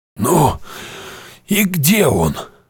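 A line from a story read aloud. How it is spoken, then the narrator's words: Hoarse wheeze. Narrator (Russian): просипел Шептун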